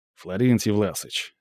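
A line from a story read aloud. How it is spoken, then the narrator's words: Quiet and stern. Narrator (Russian): остановил его Михаил тихо и строго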